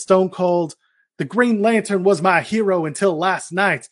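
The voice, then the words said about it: Attempted Southern US accent. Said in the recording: “I can't do a Southern accent. ... It wasn't actually that bad.”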